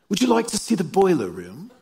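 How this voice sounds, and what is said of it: Put-on British accent. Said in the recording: “In a British accent, I'm sure.”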